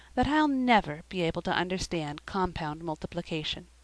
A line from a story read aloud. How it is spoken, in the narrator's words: concluded poor Sara, in a hopeless tone